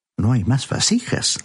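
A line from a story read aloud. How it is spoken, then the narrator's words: Plain. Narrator (Spanish): respondió él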